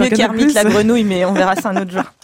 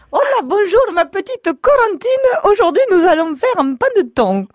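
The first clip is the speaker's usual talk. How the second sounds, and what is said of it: Imitates another person's voice. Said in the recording (French): “une petite imitation de Marie-Hélène ... c'est de la belle imitation là ... Vous allez faire les voix dans les guignols”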